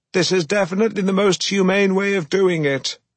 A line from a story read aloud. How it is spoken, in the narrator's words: screamed over the deafening roar of the machinery